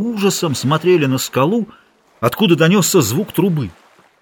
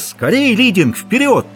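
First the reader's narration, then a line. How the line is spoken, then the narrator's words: Sudden shout in Spanish. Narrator (Russian): Оно засмеялось веселым человеческим смехом и вдруг крикнуло на чистом испанском языке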